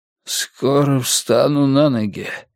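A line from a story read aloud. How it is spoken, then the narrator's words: Hoarse, wheezing. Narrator (Russian): прохрипел он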